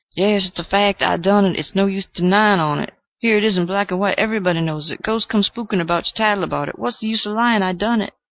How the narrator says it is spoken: cried out in a hoarse, choking voice

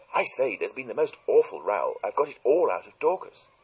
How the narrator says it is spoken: Cynthia greeted me eagerly

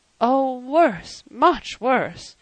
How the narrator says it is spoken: moaned Mrs

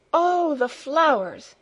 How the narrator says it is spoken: exclaimed

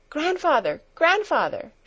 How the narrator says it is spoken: she cried, beside herself with excitement

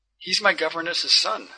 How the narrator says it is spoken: our host continued in a beseeching tone

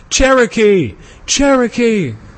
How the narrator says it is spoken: Shouts of applause, many cries of

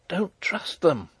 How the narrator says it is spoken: whispered Antoinette

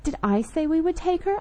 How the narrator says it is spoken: I demanded crossly

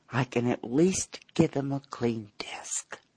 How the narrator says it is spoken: murmuring

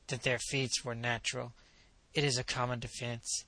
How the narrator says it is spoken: Knupf muttered

